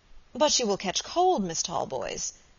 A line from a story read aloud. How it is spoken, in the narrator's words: remonstrated Robert, looking at her anxiously